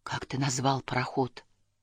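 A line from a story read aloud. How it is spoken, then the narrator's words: Sad, barely audible. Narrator (Russian): опечалившись, я чуть слышно спросил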